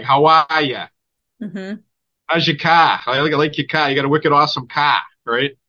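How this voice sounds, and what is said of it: Exaggerated Boston accent. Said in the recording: “So I'm from Boston ... And that's how we talk. So where does that kind of an accent come from?”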